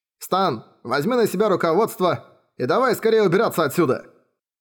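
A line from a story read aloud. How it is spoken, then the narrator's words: Terrified shout. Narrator (Russian): крикнул Талькот, в ужасе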